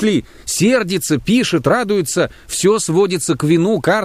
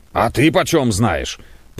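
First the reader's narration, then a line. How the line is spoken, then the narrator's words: Angry grumble. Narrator (Russian): проворчал Самойленко со злобой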